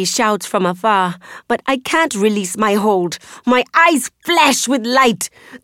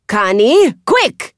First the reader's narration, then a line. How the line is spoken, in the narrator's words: Mama Agba yells